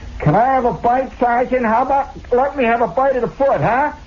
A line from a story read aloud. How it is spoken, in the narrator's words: somebody hollering, say